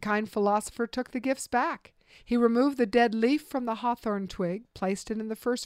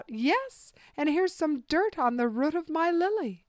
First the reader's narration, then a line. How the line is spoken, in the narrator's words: The third cried out